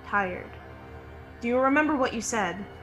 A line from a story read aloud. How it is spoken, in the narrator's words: sleepily, a small voice comes out, and he just says